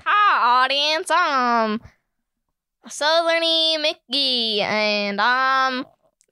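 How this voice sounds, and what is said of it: Put-on Southern US character voice. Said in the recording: “Do a southern character ... do a southern character as you know, a little teaser ... A Southern character, like, walking on stage and saying hi to the audience”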